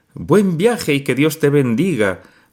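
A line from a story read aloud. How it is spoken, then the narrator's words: Grandmother calling from porch. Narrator (Spanish): gritó la abuela desde el porche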